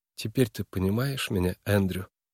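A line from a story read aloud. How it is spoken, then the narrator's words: Tender, gentle voice. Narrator (Russian): Голос Нойс звучал нежно и ласково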